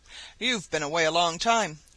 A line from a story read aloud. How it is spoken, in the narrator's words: growled the savage beast